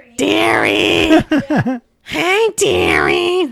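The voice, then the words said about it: Imitating an elderly neighbor lady. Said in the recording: “Mrs. Schuster ... you got to do her voice ... That's how she would talk.”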